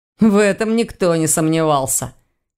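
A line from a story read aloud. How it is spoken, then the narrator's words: Skeptical snort. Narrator (Russian): хмыкнул Ваня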